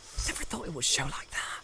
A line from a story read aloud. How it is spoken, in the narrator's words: he muttered